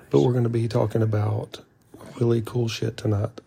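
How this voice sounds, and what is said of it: Soft whispering voice. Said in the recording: “We're going to be somewhat whispering ... It's ASMR.”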